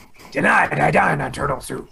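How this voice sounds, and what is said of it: Poor imitation of another person's voice. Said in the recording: “That was a terrible James Avery. ... That was garbage. Never again will I attempt Mr. James Avery. ... That was an awful impersonation.”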